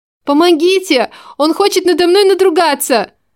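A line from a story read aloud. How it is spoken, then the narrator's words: Screaming woman. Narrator (Russian): Я закричала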